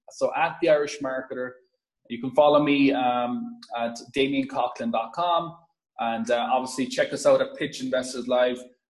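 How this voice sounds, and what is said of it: Irish accent. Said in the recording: “as you could probably hear from my accent, born and raised in a farm in Ireland”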